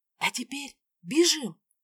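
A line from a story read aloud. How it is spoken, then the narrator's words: Whisper. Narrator (Russian): прошептала я Эсмире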